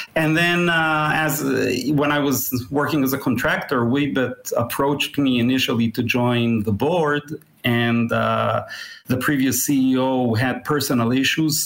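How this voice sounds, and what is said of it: Israeli-accented English. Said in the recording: “you've got a fantastic international accent ... I'm at least ninth generation Israeli”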